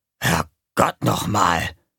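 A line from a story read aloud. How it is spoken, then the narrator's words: Muttered. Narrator (German): murmelte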